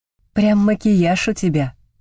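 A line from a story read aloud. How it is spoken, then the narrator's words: Smirking snort. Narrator (Russian): хмыкнула я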